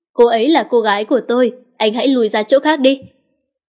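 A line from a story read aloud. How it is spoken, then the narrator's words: Angry, jealous. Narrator (Vietnamese): Kính Hào đang tức giận và nghe thêm lời này, anh máu ghen nổi lên, anh lên tiếng nói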